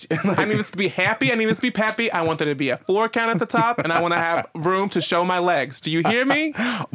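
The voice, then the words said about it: Put-on New Jersey accent. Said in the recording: “give her a Jersey voice ... she's Fran”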